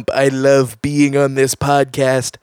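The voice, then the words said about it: Imitates another person's voice. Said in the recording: “very good impression ... Man of 1,000 voices, and 999 of them are Donald Trump”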